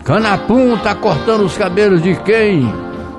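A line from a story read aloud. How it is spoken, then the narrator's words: Group shouting. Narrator (Portuguese): gritavam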